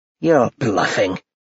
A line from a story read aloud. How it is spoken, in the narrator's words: his mother spat